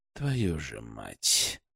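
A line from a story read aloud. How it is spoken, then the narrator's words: Whisper through gritted teeth. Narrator (Russian): прошептал он сквозь зубы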